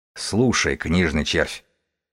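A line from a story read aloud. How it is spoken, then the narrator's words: Quiet, hushed speech. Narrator (Russian): бегун говорил тихо, чтобы не разбудить ребенка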